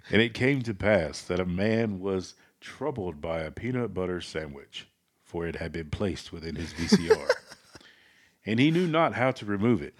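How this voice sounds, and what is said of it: Preachy pastor voice. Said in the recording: “do it in your best pastor voice.”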